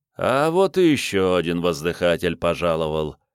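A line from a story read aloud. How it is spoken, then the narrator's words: Lazy drawl. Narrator (Russian): лениво произнес граф Валлей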